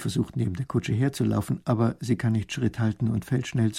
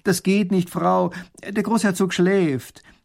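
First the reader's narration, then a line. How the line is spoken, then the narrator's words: Called out. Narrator (German): Erich ruft ihr zu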